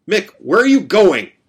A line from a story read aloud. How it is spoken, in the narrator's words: shouted